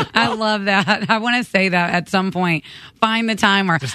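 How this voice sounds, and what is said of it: Usual voice. Nothing is said of it.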